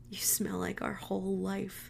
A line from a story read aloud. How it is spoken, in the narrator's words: said softly into her hair